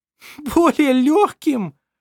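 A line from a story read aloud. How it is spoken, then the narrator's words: Laughing, near tears. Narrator (Russian): засмеялась она, чуть не плача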